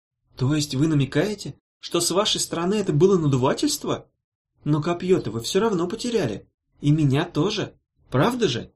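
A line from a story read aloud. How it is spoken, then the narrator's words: Soft clarifying woman. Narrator (Russian): мягко уточнила Ирка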